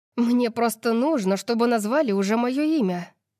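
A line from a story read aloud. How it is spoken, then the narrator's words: Breathy exhale. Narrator (Russian): выдохнула Сиона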